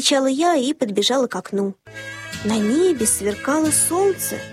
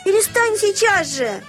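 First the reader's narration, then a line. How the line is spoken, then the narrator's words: Shouting. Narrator (Russian): закричала я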